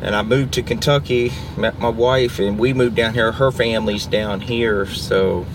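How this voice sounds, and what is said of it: Virginian American accent. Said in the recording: “So your accent, is that a Virginian accent ... or a Kentucky? ... Virginia. ... That's a Virginian ... accent? ... You never ... lose that, eh?”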